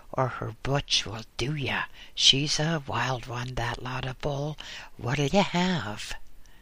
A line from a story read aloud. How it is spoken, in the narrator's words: whispered the barkeep